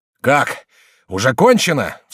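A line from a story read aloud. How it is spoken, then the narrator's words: Heated exclamation. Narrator (Russian): вскрикнул разгорячившийся король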